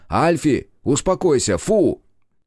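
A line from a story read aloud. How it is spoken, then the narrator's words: Shouted. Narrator (Russian): Игорь крикнув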